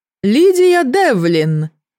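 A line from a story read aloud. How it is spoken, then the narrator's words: Thundering voice. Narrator (Russian): прогремел голос Ифы Арнеллы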